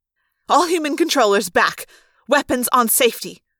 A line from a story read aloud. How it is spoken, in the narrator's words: the woman snapped